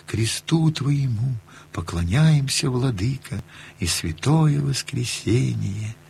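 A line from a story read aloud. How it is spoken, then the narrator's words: Quiet humming to oneself. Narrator (Russian): напевал тихо, как про себя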